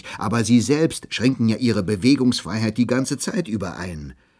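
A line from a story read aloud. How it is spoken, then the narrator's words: Calling out. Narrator (German): rief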